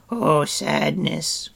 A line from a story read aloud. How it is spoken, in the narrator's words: Gricky moaned